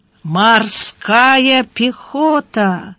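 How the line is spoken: Drawn-out ambiguous tone. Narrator (Russian): протянул Гарайло с непонятной интонацией

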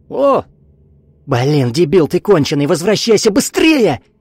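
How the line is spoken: Deafening yell. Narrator (Russian): Вика заорала так, что у нее самой заложило уши

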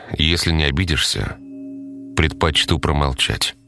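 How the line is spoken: Sighing reply. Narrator (Russian): вздохнув, ответил Стас

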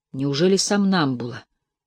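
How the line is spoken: Horrified whisper. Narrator (Russian): прошептал с ужасом в голосе

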